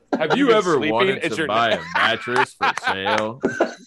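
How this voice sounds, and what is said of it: TV commercial announcer voice. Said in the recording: “say that in your Humera voice ... you got the voice”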